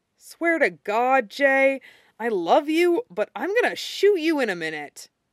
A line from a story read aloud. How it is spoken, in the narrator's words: Pooch groans